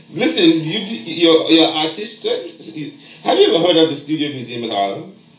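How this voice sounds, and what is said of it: New York accent. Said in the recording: “I have this my accent. I'm native New Yorker.”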